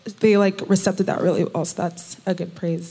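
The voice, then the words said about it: Shaky, emotional voice. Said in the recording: “my voice is shaky”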